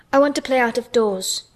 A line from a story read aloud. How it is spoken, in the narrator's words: Mary answered, hoping that her voice did not tremble